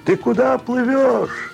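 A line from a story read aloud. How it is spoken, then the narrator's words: Two voices shouting. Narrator (Russian): Кричали ему наряженные, как тоники, в ярко-синей одежде два квинта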